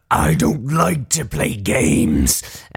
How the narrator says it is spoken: the Far Lord sort of like snarls and ... says

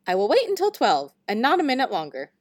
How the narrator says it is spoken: he said in a strange, squeaky voice

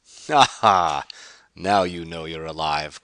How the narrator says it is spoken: Carr laughed

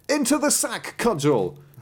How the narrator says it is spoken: he cried

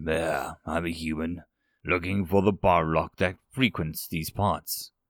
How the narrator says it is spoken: just muttered

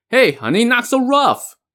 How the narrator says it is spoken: shouted as he grimaced in pain

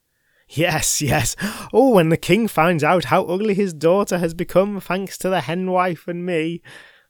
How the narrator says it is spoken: laughed

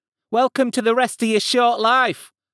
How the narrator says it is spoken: called out Mikhails, the woman the others called Rocket Girl

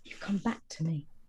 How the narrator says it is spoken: said in a very faint voice

